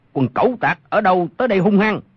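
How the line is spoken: Shout. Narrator (Vietnamese): một người quát lên

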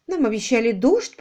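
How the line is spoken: Sad female voice. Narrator (Russian): произнесла она печально

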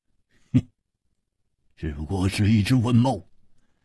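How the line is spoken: Forced laugh. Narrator (Chinese): 胡铁华勉强笑了笑

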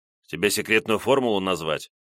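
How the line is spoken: Snapped retort. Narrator (Russian): огрызнулся наблюдатель

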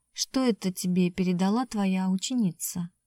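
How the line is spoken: Tender whisper. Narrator (Russian): Сергей нежно прошептал

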